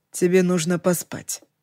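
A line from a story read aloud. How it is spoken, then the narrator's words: Gentle reminder. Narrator (Russian): мягко напомнил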